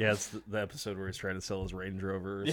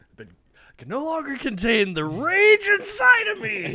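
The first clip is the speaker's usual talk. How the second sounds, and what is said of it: Impression of Dennis from It's Always Sunny. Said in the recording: “that an impression ... Dennis from It's Always Sunny”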